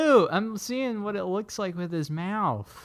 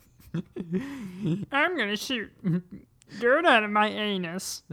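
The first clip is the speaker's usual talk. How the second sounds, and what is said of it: Imitates another person's voice. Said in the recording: “my Josh Gad impression ... Yeah, that was really good.”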